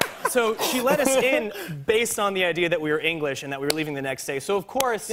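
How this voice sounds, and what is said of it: Usual voice. Nothing is said of it.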